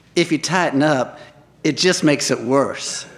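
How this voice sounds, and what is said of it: Slow, sexy southern drawl. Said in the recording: “in a slow, sexy southern drawl”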